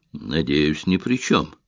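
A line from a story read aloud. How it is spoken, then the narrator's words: Gloomy statement. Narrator (Russian): мрачно заявил Айшем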